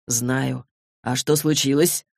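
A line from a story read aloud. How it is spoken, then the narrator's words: Soft snort. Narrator (Russian): Алик тихо фыркнул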